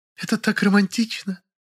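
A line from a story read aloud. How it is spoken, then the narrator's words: Choking hysterical sobs. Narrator (Russian): Лиля уже захлебывалась в истерических рыданиях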